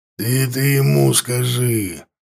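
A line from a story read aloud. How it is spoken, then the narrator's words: Growled. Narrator (Russian): зарычал Ворк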